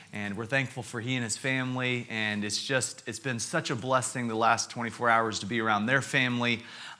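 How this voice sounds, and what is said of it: American accent. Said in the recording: “I want to apologize for my accent. ... from America”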